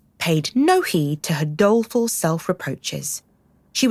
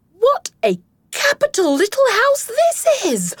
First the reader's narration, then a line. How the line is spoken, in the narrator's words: called out cheerily